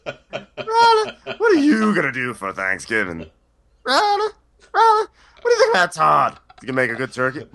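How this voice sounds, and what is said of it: Slightly off impression of Candy. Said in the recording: “Something's off with my candy impersonation. ... I can sound like Candy”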